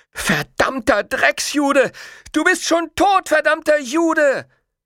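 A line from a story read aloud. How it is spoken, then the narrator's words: Little boy screaming. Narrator (German): der kleine Junge mit der gelben Gesichtsfarbe schrie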